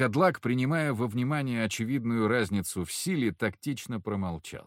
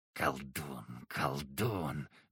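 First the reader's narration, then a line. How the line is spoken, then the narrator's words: Werewolf's mutter. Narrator (Russian): бормотал волкодлак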